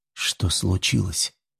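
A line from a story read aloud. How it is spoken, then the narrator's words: Very quiet hoarse question. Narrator (Russian): спросил я очень тихо ... голос мой звучит с хрипотцой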